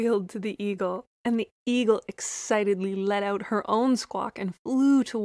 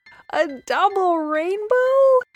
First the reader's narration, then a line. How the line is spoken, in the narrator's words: Lily squealed with delight